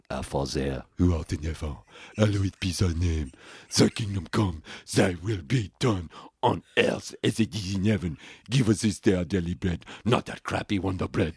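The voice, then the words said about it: Snotty French waiter accent. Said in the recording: “I would do the Lord's Prayer in a French accent as well, like a snotty French waiter”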